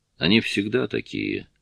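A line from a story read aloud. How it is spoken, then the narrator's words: Sad. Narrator (Russian): грустно сказал он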